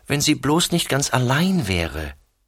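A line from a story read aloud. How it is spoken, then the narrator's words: Sighing. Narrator (German): seufzt sie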